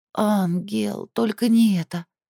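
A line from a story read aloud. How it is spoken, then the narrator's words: Moaned, coming to. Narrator (Russian): простонала Эстель, приходя в себя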